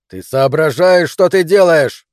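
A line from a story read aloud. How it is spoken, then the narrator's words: Yell. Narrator (Russian): заорал он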